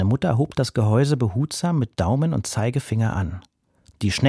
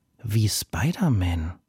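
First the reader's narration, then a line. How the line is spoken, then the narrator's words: Murmur. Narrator (German): murmelte Arik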